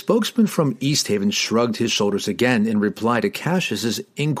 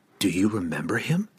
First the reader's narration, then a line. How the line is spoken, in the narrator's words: Cassius asked Glensather softly